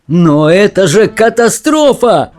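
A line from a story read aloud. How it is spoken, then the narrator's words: Shout. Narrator (Russian): закричал мистер Уонка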